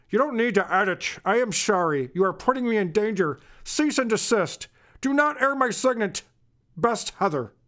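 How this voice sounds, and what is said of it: Imitates another person's voice. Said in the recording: “I should do the voice still. All right, let me do that again.”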